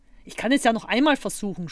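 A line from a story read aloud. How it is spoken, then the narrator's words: Suggesting. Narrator (German): schlug Zottel vor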